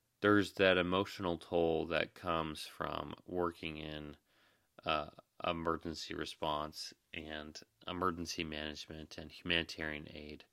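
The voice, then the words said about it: Tired-sounding voice. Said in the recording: “I'm tired ... You can hear it in my voice”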